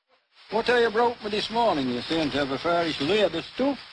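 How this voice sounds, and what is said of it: Strong old-fashioned Yorkshire accent. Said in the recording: “speaks a much older and stronger Yorkshire variety of English.”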